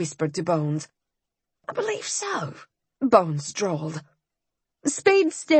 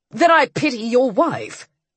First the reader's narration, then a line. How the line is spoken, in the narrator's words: Ian snapped